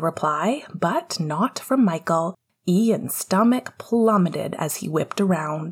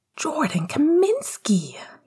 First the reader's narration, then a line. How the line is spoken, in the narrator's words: he said breathlessly